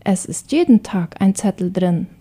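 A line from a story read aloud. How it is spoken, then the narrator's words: Plain. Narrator (German): sagt die Mutter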